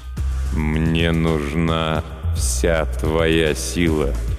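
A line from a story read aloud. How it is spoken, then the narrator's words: Slow speech. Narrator (Russian): медленно произнес некромант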